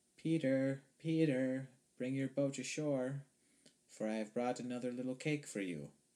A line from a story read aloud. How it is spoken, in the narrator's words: called out